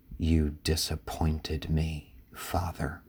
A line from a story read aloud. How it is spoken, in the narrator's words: a muffled sob fills the night, and she whispers